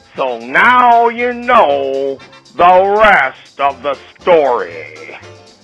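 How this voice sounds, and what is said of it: Imitates another person's voice. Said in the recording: “bad Paul Harvey imitation. I can't do voices.”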